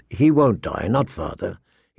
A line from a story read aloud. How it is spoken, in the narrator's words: he said calmly